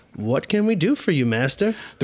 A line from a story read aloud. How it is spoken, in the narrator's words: Holmes said, whimpering